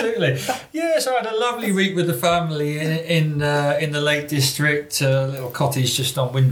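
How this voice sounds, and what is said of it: Usual voice. Nothing is said of it.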